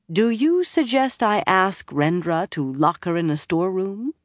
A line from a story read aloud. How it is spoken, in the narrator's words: Nynaeve asked calmly